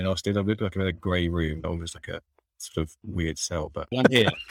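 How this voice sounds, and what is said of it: London accent. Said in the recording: “I've got my London accent as well. I'm from London”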